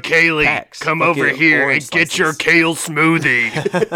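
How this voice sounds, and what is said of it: Vegeta character voice impression. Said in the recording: “I did an impression ... That was a Vegeta impression.”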